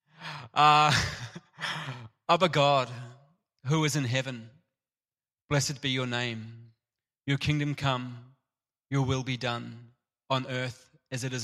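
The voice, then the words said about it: New Zealand accent, slightly Australian. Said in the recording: “In my Kiwi / slightly Australian tinged accent”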